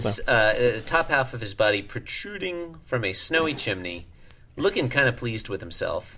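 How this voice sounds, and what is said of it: Usual voice. Nothing is said of it.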